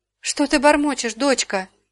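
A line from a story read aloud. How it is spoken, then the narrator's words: Frightened question. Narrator (Russian): испуганно спросила Дора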